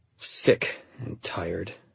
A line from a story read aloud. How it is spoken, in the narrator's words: I mumbled